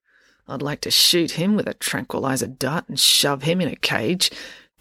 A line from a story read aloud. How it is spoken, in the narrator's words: grumbled Officer Odinson